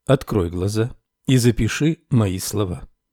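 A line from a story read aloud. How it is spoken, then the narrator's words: Quiet speech. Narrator (Russian): Наконец учитель тихо сказал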